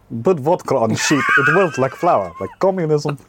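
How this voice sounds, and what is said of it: Put-on Welsh accent. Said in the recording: “Do you want to hear my Welsh accent?”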